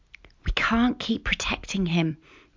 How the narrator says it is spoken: Mum whispered to Dad

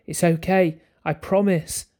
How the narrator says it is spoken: I cried

